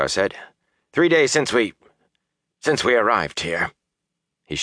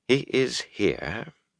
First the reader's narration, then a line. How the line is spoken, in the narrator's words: Varen said calmly